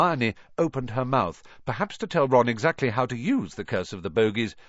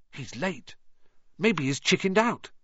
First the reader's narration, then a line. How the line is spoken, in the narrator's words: Ron whispered